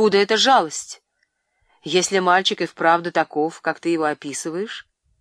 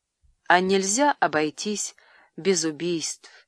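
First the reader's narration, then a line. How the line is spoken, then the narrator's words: Sad question. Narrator (Russian): печально спросил я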